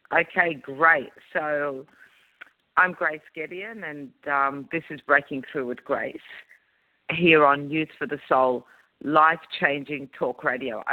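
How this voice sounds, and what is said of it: Croaky, hoarse voice. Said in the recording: “my voice might sound a little bit croaky ... my voice is a bit croaky”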